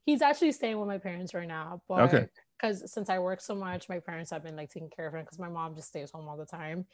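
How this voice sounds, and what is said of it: Miami Hialeah accent. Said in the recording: “your accent is so unique ... I was born in Hialeah, so that's probably where my accent came from ... Very Miamian.”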